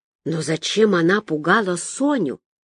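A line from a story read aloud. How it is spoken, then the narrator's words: Whisper. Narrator (Russian): прошептала я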